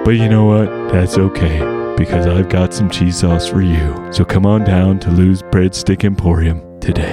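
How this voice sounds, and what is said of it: Announcer-style voice. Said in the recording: “announcer voice ... Announcer voice.”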